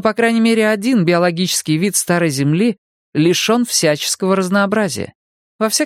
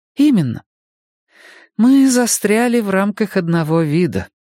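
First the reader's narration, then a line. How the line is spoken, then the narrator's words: Gloomy. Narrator (Russian): мрачно кивнула Энея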